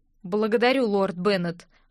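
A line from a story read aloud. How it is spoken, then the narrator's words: Plain. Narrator (Russian): ответил Айронд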